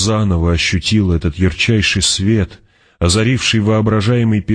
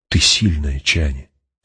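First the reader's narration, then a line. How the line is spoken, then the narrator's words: Barely audible. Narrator (Russian): проговорил он еле слышно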